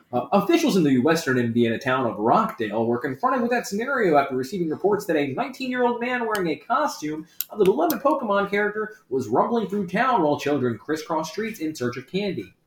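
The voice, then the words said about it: Mock newscaster reading voice. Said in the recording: “news voice”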